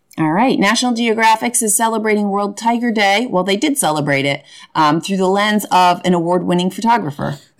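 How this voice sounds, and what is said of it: Voice slightly off, unwell. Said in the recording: “My voice is a little off today. ... You're a little under the weather.”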